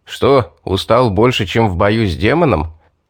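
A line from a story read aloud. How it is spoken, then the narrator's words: Chuckling laugh. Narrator (Russian): хохотнул Стоун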